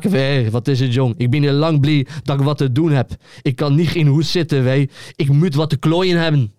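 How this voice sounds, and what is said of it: Poor put-on Almelo accent. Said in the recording (Dutch): “Almeloos accent ... Heel slecht accent ... door mijn slechte accent”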